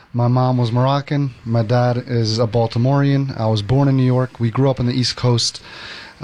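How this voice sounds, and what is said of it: Distinctive mixed regional accent. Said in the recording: “crazy accent ... That accent is a little bit of a mixed pot”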